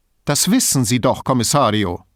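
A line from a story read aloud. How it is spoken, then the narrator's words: Sharp reply. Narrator (German): erwiderte sie scharf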